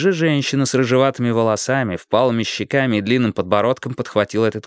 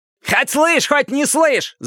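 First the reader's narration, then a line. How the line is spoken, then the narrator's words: Yelled. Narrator (Russian): завопил другой человек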